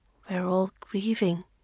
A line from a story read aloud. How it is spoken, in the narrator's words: Maylin murmurs, exhausted